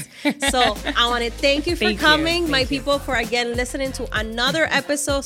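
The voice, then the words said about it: Non-native English accent. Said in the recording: “I got the accent because she doesn't. She speaks perfect English because she was born here.”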